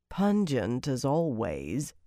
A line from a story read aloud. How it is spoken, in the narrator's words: Dailin said dryly